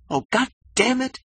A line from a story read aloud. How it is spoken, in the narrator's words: he cried